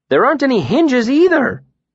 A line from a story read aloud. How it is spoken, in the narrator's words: Bast exclaimed